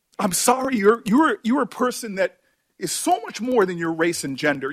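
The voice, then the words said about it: Emotional, choked-up speech. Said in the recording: “He got very emotional ... I get emotional.”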